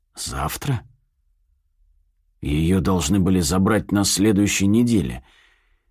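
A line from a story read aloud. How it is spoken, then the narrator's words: Hoarse choked voice. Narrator (Russian): хрипло произношу, чувствуя разрастающийся, сдавливающий ком в груди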